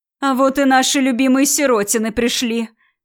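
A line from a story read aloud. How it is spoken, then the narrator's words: Joyful squeal. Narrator (Russian): Радостно завизжала тетя Серафима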